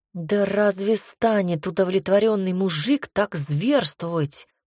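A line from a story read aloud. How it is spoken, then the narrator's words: Groan. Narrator (Russian): простонал Снежный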